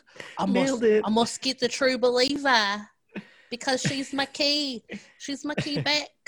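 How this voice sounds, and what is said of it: Good put-on New Zealand accent. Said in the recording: “That was an awesome New Zealand accent.”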